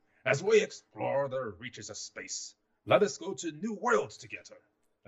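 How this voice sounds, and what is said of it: Richard Nixon impression. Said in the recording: “my best or worst Nixon impression”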